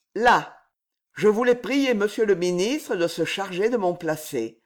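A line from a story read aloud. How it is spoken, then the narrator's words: Cold male voice. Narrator (French): ajouta-t-il froidement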